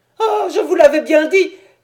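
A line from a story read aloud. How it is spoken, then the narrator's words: Small creature exclaiming distraught. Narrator (French): s'écria le pauvre petit être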